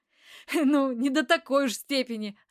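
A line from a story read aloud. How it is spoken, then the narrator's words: Laughing. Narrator (Russian): рассмеялся незнакомец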